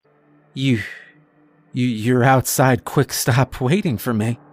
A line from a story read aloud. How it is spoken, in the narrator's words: I stammered